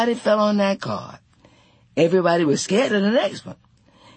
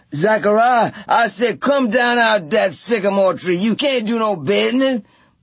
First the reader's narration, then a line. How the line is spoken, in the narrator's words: Ed hollered